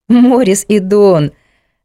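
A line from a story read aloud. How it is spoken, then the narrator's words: Laughing. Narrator (Russian): рассмеялась Мирослава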